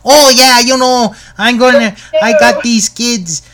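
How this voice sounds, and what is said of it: Put-on Minnesota accent. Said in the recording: “a Minnesota accent, where people in Minnesota...”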